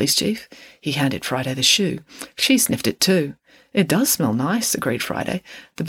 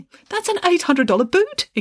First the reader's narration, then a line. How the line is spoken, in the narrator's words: exclaimed the secretary, who had a great deal of respect for footwear, expensive footwear in particular